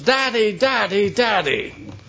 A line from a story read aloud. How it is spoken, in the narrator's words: screaming at the top of his lungs